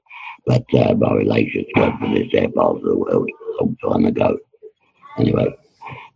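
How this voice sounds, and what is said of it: Strong London accent. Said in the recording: “I got a London accent ... It is very broad sometimes ... I'm a little bit broad ... I got a very strong London accent”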